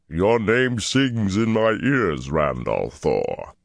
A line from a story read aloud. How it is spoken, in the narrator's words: in a voice like rumbling thunder, gravely